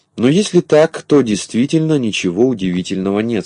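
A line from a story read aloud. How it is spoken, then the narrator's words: Plain. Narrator (Russian): сказал Пестренький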